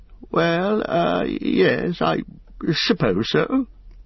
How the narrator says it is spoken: stammered Bilbo

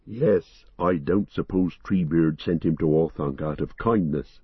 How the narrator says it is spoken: said Merry

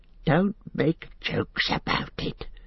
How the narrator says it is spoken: hissed Gollum

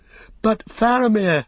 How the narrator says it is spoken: cried Pippin

